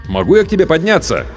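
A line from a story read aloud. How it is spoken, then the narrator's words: Shout. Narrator (Russian): крикнул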